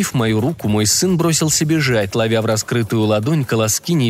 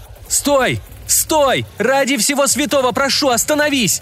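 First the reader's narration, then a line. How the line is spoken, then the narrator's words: Bellowing, choked by tears. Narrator (Russian): Орал я во все горло, но слезы задушили последние слова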